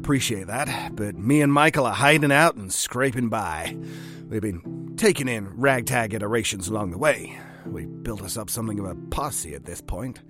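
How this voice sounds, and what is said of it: Put-on cowboy accent, not fully convincing. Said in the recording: “the cowboy persona is, it's coming along. It's coming along. I'm not sure that I would be convinced, per se ... You're making a lot of headway. Accents aren't easy.”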